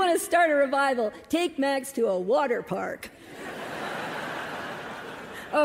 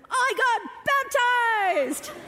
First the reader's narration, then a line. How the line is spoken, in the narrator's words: he yells